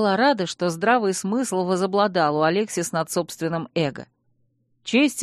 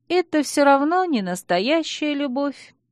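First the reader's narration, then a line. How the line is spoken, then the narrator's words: Sad smiling tone. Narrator (Russian): грустно улыбнулась кузина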